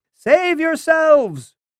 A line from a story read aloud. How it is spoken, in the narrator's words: he cried